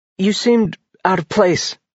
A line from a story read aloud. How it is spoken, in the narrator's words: she blurted